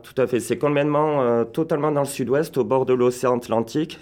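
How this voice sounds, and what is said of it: Southwestern French accent. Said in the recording (French): “si on entend ton accent ... du sud-ouest, euh, juste à côté de Biarritz”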